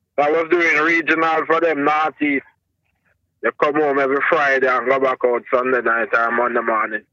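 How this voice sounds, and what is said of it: Thick Jamaican accent. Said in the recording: “you got a thick ass Jamaican accent ... I'm digging your accent, man”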